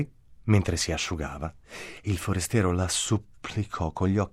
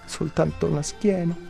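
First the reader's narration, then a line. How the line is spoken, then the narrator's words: Stranger pleading. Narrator (Italian): supplicò il forestiero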